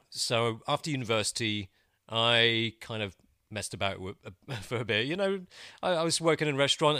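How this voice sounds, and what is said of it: British accent. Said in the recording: “You obviously have a British accent.”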